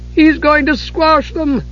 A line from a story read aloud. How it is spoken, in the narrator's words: Tass cried